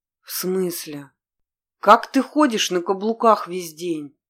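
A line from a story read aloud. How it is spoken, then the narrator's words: Groaning young man. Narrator (Russian): простонал парень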